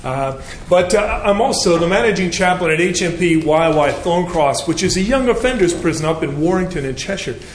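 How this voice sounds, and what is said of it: Slight Canadian accent. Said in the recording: “I hope you can understand my, my accent... originally, I'm from Canada, so I, I do apologize for my uh, slight twang.”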